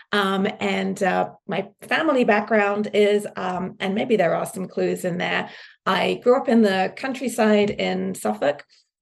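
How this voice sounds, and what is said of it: British English accent. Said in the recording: “my slightly strange accent ... I'm actually from the UK”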